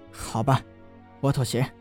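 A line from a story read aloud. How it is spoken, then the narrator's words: Reluctant, through gritted teeth. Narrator (Chinese): 陈南的嘴角一阵的抽搐啊，最后咬牙道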